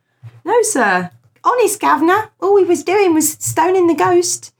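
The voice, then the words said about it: Poor put-on Cockney accent. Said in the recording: “It was a terrible Cockney accent.”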